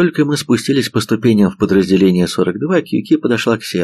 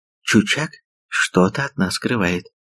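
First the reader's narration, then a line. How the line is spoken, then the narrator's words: Whisper. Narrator (Russian): прошептала она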